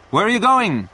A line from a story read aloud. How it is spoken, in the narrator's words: Peter shouted through the window